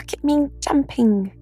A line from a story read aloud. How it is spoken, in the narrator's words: squeaked Roo